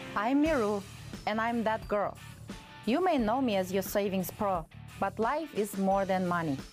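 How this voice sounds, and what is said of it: Russian accent. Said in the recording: “a girl from Kazakhstan with a Russian accent”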